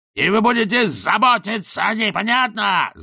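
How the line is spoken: Yelling. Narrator (Russian): заорал он

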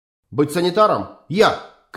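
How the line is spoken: Shout. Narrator (Russian): крикнул Кинцель

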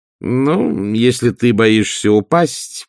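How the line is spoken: Drawling. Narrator (Russian): протянула она

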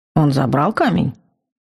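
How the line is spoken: Calm question. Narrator (Russian): спокойно спросил магистр

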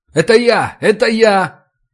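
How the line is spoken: Repeated shouting. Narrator (Russian): крикнул я дважды

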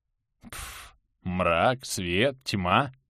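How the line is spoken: Dismissive snort. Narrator (Russian): пренебрежительно фыркнул Гераника

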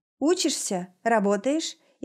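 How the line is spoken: Casual question. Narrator (Russian): интересуется будничным тоном

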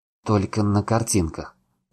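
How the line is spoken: Mumbling. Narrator (Russian): продолжал мямлить я

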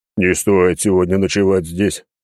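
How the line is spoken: Grumbled. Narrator (Russian): пробурчал он

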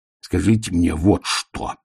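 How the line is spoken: Growling. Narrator (Russian): прорычал он

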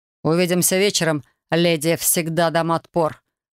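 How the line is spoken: Smirking dragon. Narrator (Russian): хмыкнул дракон

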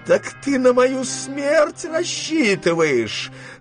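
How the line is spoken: Grandmother wailing. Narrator (Russian): завопила бабушка генералу

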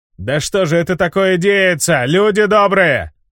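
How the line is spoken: Shout from a crowd. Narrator (Russian): выкрикнул кто-то из толпы

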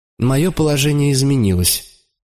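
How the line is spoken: Dry reply. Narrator (Russian): ответил я сухо

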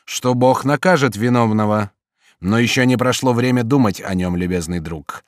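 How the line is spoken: Plain. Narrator (Russian): сказал он Жану

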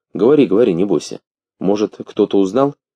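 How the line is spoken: Calm, unhurried. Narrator (Russian): Спокойно и неторопливо ответил он

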